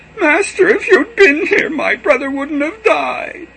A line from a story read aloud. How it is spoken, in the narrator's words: she fell at his feet and wailed